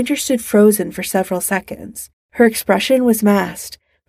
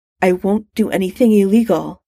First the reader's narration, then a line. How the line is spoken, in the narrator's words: she said in a tight voice